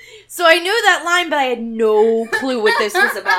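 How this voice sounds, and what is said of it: Usual voice. Nothing is said of it.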